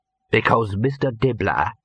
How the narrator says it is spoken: he growled

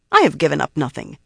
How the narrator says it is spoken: Savanna replied irritably

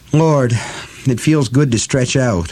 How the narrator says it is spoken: she sighed

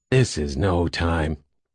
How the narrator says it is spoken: Jim began wearily

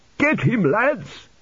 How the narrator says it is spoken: he shouted

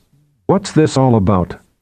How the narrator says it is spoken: she asked in a steely tone

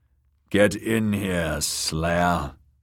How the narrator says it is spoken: growled the man in the doorway

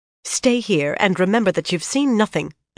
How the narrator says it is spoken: Elaenia snapped at her own meager retinue

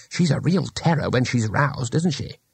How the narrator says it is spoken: Two Flower whispered

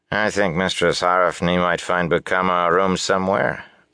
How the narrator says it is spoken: a man's familiar voice said dryly

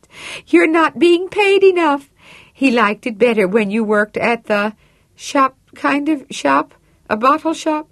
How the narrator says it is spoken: laughed

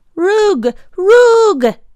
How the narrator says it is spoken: he cried

